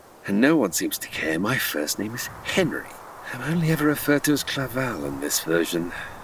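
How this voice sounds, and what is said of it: British accent. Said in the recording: “That's a British accent, though. ... speaking in British accents”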